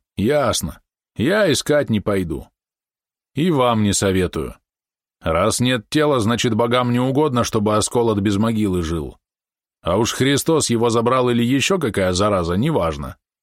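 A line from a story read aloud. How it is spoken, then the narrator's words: Deep bass voice from afar. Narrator (Russian): Из дальнего угла пробасило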